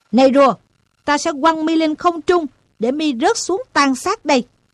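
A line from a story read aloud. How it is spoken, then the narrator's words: Shouting. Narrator (Vietnamese): Nó quát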